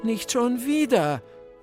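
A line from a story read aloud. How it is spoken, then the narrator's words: Groaning. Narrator (German): stöhnte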